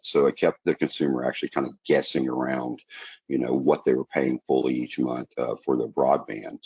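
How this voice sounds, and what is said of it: Southern US accent. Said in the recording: “You hear my accent. I'm born in rural areas in the South”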